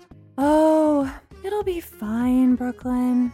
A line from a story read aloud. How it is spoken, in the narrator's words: Bree said dreamily